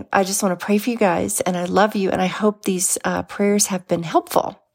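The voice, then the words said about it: Froggy, hoarse voice. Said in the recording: “my voice sounds a little froggy today, it's just because I've been sick”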